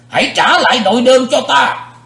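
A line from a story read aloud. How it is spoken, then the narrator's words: Roaring shout. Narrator (Vietnamese): Sự diện quái ma dục rống lên một tiếng, quát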